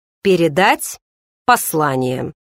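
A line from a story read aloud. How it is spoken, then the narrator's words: Forced calm, still shaken. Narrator (Russian): постарался спокойно ответить он, но было видно, что он еще находится под впечатлением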